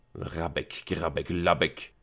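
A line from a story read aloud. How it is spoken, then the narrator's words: Muttering to oneself. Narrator (German): murmelte er vor sich hin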